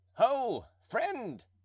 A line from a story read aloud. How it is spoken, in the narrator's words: cried Planchet